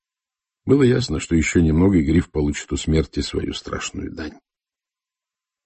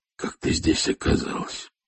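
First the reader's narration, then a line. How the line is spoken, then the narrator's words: Hoarse, barely audible. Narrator (Russian): я проговорил, хрипло, почти неслышно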